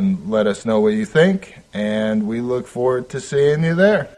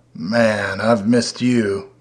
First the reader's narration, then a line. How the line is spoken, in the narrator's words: Moth purred like the lowest note on a cello